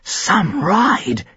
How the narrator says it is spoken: he whispered to himself

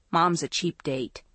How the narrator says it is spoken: Maggie said dryly

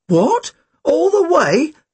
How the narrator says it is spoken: Tim cried

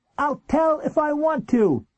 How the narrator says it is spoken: he yelled defiantly

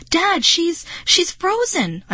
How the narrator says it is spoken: I cried

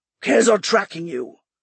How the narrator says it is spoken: the rider said in a throaty growl, voice echoing from his helmet

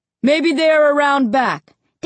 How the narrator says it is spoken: Dad shouted down to me

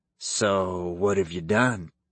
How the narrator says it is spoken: Kyle laughed softly

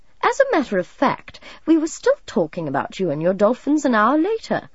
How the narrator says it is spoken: Uncle Alan told them, laughing

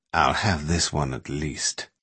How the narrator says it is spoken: mutter

